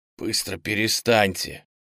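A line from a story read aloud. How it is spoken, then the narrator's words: Barely audible. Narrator (Russian): Облакову было еле слышно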